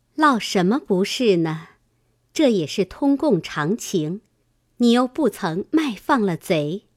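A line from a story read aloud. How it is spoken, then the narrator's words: Laughing. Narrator (Chinese): 宝钗笑道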